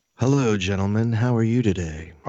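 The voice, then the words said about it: Sultry, sexy voice. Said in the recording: “Oh, no, he's got his sexy voice.”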